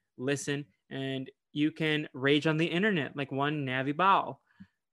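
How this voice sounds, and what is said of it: Put-on country accent. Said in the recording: “I don't know why I said that like a country accent”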